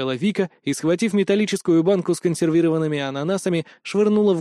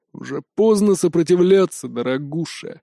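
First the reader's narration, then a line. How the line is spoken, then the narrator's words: Smirking snort. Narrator (Russian): хмыкнул Хоппер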